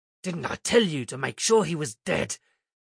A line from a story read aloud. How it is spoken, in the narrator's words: growled the robber chieftain to his lieutenant